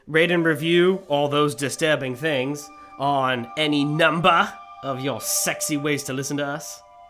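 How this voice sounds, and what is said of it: Surprisingly good Australian accent. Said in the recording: “You Australian, man? ... That was an Australian accent ... a surprisingly good Australian accent”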